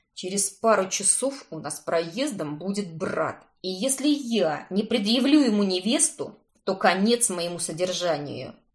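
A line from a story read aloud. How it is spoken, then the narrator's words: Through clenched teeth, kidnapper. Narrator (Russian): Сквозь зубы процедил похититель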